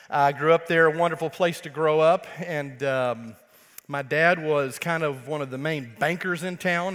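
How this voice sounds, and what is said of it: Texas accent. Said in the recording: “my normal Texas accent”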